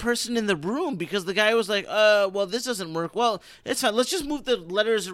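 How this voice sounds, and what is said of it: Usual voice. Nothing is said of it.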